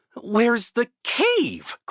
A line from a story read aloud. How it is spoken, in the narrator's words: cried Olaf